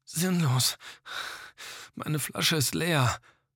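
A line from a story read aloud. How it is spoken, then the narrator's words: Panting, muffled by mask. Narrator (German): keuchte er unter der Maske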